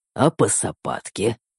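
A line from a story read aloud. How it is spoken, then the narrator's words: Insinuating growl. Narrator (Russian): вкрадчиво прорычал я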